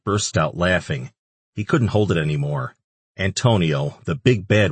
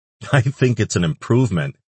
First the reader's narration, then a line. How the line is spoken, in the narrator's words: Ash choked out between laughs